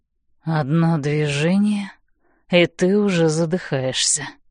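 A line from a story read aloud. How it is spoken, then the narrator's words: Hoarse whisper. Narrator (Russian): хрипло шепчет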